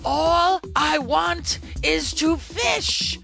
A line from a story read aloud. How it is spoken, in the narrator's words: I roared